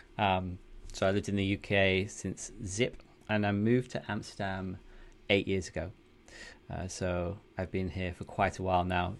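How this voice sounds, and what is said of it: Northern English accent. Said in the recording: “I'm from the UK originally, as you can probably tell from my northern accent.”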